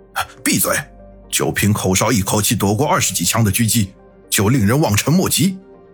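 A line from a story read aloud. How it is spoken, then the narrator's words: Angry. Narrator (Chinese): 大强怒道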